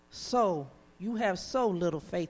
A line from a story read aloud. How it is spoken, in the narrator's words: Jesus said